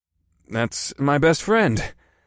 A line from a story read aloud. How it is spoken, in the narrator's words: I sighed